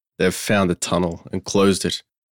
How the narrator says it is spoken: groaned Michael

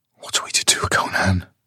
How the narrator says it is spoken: She whispered

